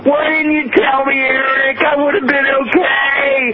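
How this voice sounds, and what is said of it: Yelling, upset voice. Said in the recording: “sorry for yelling”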